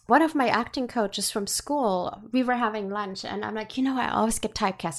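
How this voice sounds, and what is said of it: German accent. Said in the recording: “I have a German accent.”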